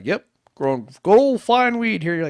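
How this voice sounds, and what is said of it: Put-on farmer accent. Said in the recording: “Where'd you get that farmer accent from?”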